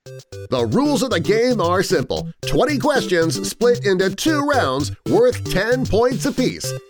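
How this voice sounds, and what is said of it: Impression of the game's rules announcer. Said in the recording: “your best rules guy impression”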